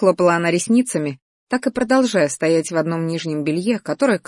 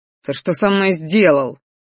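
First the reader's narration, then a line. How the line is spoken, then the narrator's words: Roar. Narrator (Russian): взревел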